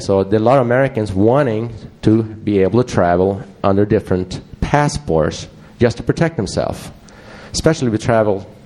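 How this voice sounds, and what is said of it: Swedish accent. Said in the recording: “I have a Swedish accent”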